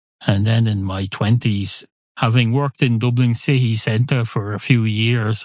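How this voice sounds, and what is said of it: Irish accent. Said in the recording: “I speak whatever the Irish equivalent of the Queen's English is”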